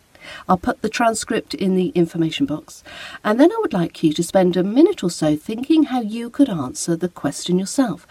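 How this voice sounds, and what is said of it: British English accent. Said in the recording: “your spoken British English accent with mine”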